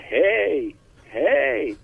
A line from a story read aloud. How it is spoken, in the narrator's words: shout